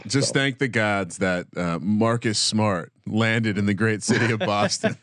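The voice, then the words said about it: Exaggerated Boston accent. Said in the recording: “Perfect A there for the Boston accent.”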